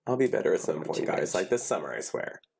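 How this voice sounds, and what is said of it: Stuffed-up, congested voice. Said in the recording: “you're all stuffed up”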